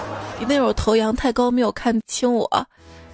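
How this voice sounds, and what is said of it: Usual voice. Nothing is said of it.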